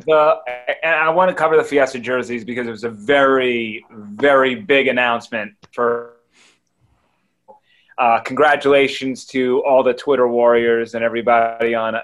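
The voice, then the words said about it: New York accent. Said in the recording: “oh, my New York accent just came out there.”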